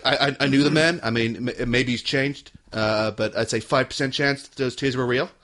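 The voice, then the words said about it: Imitates another person's voice. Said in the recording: “that's my first attempt at Trump impersonation.”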